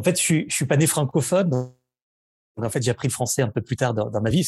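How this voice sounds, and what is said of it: Slight Spanish accent in French. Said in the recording (French): “vous avez un petit accent ... je viens du sud ... je suis né à Barcelone”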